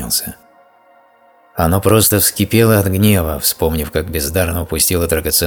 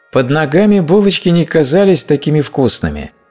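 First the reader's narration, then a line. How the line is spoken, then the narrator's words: Hearty laughter. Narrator (Russian): Майкл расхохотался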